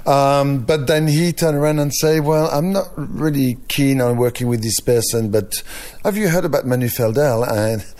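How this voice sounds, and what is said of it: French accent in English. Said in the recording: “people think that my French accent is getting stronger every year ... apparently it gets stronger”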